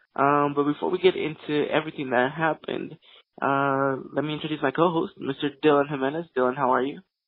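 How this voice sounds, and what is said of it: Wonky, sick-sounding voice. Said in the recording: “excuse my voice. Uh, it does sound a little bit wonky. I am a little bit sick.”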